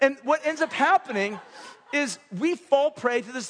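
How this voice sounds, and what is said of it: Usual voice. Nothing is said of it.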